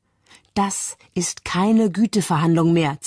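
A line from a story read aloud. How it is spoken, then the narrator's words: Hissed. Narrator (German): zischt sie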